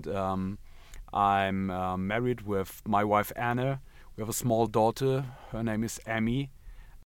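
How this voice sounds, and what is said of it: German accent in English. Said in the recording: “I'm from Germany. Maybe you can hear this because of my bad accent.”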